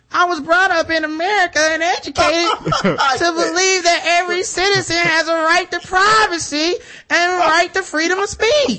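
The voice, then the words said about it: Imitates another person's voice. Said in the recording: “I should be reading this in my Donald Sterling voice”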